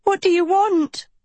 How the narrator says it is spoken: she screamed

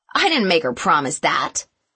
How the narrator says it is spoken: snapped

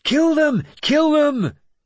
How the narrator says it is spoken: My son shouted

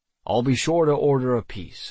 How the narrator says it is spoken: I said

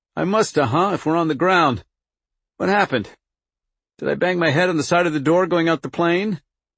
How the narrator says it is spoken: His voice was strained and feeble with pain

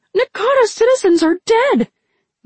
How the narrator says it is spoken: Niang exclaimed

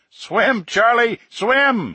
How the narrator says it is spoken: he screamed

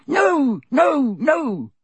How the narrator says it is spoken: squeaked Dobby

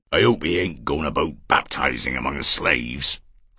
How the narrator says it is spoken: Thurzo muttered hoarsely in Paris's ear

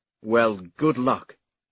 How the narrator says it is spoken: Senlin replied curtly

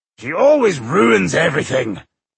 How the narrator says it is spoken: Boindil said testily

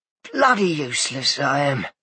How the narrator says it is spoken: he muttered

